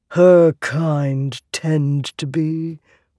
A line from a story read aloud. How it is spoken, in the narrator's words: Wit mumbled